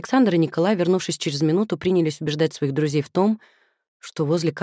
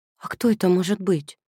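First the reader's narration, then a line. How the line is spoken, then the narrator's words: Frightened question. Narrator (Russian): испуганно спросила Люба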